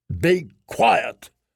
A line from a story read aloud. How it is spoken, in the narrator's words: Stannis snapped